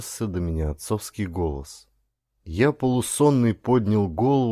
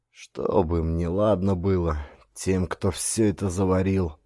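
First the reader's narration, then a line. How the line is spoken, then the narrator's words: Sighing old woman. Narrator (Russian): Вздохнула бабушка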